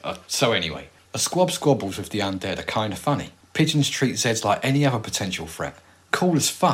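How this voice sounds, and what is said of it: Usual voice. Nothing is said of it.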